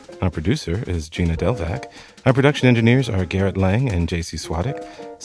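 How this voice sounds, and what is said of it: Exaggerated podcast announcer voice. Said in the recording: “I'm going to do this in the podcast voice.”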